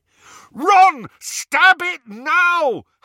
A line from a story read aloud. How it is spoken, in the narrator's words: Harry bellowed